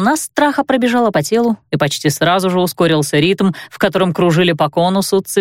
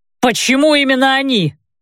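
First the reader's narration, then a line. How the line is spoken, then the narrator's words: Distant shout. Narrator (Russian): крикнул с той стороны Кен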